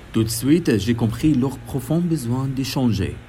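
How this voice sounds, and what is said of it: Foreign accent in French. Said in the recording (French): “mon accent étrangère”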